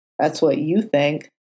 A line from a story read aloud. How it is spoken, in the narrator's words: Foggy muttered, in a smug tone